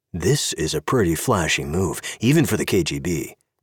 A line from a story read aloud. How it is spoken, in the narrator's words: Dom said